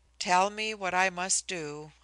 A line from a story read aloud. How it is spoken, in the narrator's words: I said wearily